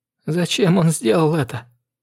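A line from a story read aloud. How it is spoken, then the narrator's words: Tearful whisper. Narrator (Russian): сквозь слезы шептала она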